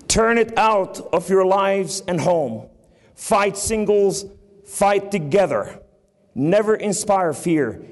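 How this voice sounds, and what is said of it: Speaks English with an accent. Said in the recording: “Excuse my accent.”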